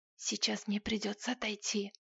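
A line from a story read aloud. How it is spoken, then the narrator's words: Whispered in ear. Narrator (Russian): Кнесс прошептал мне на ухо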